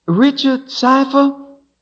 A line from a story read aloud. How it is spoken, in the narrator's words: she called after him, her voice echoing